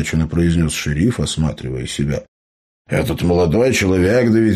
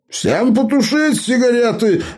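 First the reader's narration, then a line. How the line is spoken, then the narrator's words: Sudden yell. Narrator (Russian): вдруг заорал Эбер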